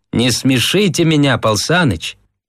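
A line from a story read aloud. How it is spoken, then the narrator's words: Laughing. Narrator (Russian): Слава засмеялся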